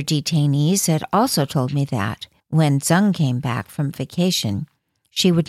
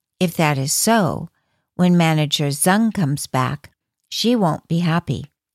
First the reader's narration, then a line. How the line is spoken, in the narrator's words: she said